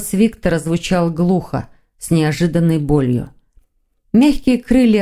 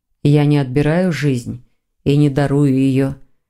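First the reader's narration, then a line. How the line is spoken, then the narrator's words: Soft reply. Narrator (Russian): мягко ответил Константин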